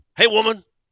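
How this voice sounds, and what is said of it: Clubber Lang character voice impression. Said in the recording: “That was my Clubber Lang impression... That was incredible.”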